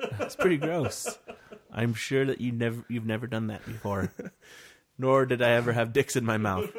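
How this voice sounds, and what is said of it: Usual voice. Nothing is said of it.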